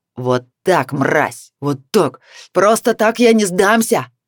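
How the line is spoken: Man shouting. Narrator (Russian): закричал мужчина

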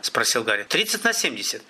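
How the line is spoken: Quick speech. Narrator (Russian): быстро сказал Коршун

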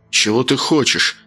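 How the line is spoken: Through gritted teeth, suppressed rage. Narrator (Russian): Процедил он, с трудом подавляя желание рвануться

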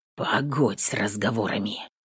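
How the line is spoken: Quiet rustling whisper. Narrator (Russian): Тихо, как шепчет высохший рогоз на ветру, ответил Петр

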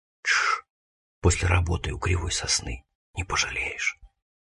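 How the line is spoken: Conspiratorial whisper. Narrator (Russian): Женька шепнул мне на ухо с заговорщицким видом

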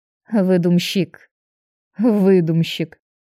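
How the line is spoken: Good-natured grumble. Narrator (Russian): беззлобно проворчала я

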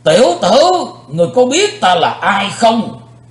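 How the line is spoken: Angry, echoing thunderous shout. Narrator (Vietnamese): Vị tà thần như nổi giận, quát chấn động bốn bề vách đá

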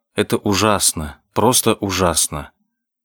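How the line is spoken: Whisper from normally impassive man. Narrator (Russian): От Блад Грей, обычно такой бесстрастный … прошептал

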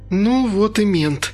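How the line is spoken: Sigh. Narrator (Russian): вздохнула Инга

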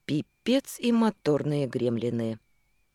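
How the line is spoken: Gloomy. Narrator (Russian): мрачно сказала

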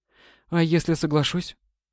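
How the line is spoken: Hesitant question. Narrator (Russian): Спросила Светлана неуверенно

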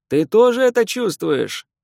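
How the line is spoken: Shouted into ear. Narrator (Russian): закричал на ухо

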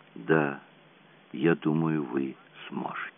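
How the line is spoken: Smiling whisper. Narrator (Russian): Джулиан улыбаясь прошептала

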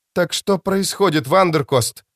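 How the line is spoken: Sharp, trembling voice. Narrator (Russian): Вопрос Робертс прозвучал резко, но голос дрогнул

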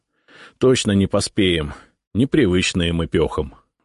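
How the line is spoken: Sighing. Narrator (Russian): вздохнул Исаул

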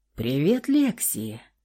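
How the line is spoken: Purring familiar voice. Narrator (Russian): замурлыкал знакомый голос

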